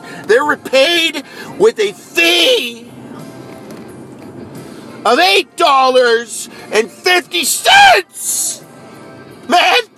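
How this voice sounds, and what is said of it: Raised, shouting voice. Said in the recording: “I'm raising my voice. It's an overreaction.”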